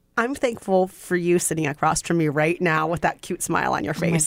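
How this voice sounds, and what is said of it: Sweet accent. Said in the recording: “your sweet, sweet accent”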